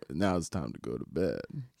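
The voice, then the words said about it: Deep-voiced Russell Wilson impression. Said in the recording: “Russell Wilson ... his deep voice.”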